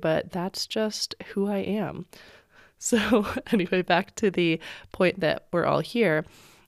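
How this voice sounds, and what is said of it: Raspy, winded voice. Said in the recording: “feeling super winded today ... sound a little bit raspy again ... either sounding congested or raspy”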